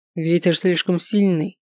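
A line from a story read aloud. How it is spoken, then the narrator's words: Dragon growling. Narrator (Russian): прорычал дракон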